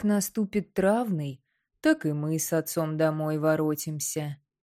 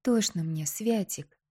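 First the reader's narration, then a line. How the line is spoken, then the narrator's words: Quiet, muffled confession. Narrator (Russian): Не отрывая головы от груди брата, тихонько призналась она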